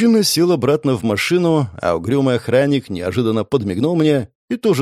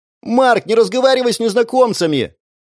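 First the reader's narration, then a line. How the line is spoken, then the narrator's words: Sister shouting. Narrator (Russian): крикнула сестра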